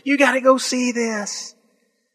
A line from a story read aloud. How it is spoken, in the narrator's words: start screaming to your friends